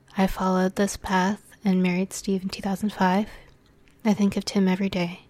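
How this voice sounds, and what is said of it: Strained, failing voice. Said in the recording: “my voice is going a little bit”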